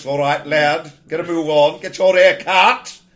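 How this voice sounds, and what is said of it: Old-fashioned gruff army sergeant voice. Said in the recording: “I went to the sort of more, you know, that old-fashioned NCO type voice”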